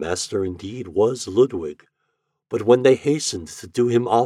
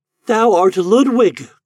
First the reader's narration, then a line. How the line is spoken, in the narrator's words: cried Eloise